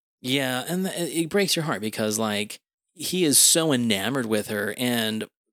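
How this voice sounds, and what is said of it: Usual voice. Nothing is said of it.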